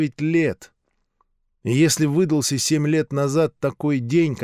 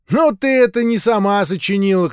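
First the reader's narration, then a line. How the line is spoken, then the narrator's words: Boy shouting. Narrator (Russian): крикнул один мальчик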